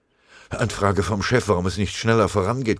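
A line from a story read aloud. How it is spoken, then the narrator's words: Messenger panting. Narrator (German): keuchte der Melder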